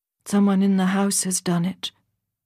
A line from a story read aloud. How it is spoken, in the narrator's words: she said